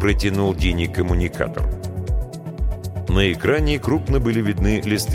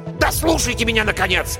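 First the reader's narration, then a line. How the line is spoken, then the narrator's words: Sharp rebuke. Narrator (Russian): прикрикнул он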